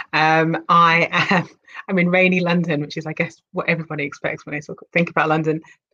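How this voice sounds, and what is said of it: British accent. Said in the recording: “I'm in the UK, just in case you didn't get it from the accent.”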